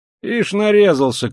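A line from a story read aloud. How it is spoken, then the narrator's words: Shouted. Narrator (Russian): крикнул кто-то ему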